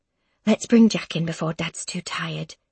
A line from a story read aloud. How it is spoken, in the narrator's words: says softly